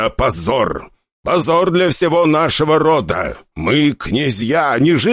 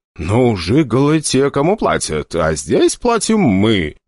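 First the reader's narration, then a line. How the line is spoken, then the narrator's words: Uncertain speech. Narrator (Russian): неуверенно проговорил Тимур Туманов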